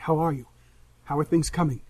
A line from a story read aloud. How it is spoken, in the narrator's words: she says quietly